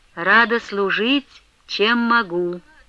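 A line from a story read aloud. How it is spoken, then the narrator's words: Gentle but restrained. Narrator (Russian): Ласково, но сдержанно ответила Манефа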